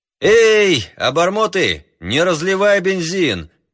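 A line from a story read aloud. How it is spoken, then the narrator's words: Shout. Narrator (Russian): крикнул пилот мальчишкам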